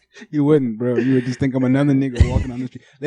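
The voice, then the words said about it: African-accented English. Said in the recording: “He from Africa ... other than his accent, is not from the U.S.”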